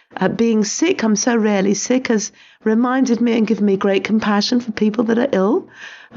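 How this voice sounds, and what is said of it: Hoarse, crackly voice. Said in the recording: “my voice isn't what it usually is ... I've just had the flu ... my voice is still showing the wear and tear of a hacking cough ... with a crackly voice”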